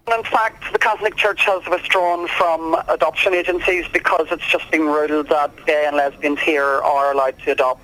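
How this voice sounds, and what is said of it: Irish accent. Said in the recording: “that beautiful Irish accent”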